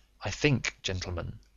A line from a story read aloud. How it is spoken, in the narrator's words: said Holmes quietly